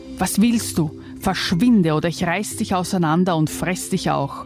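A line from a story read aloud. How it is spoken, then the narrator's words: Monster hissing. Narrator (German): zischelte das Ungeheuer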